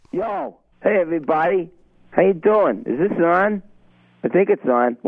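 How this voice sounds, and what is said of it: Boston-accented radio character Richie from Revere. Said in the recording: “the Boston accent ... the legendary Boston radio character, Richie from Revia”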